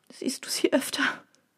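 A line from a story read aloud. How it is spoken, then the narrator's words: Sobbing. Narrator (German): schluchzte sie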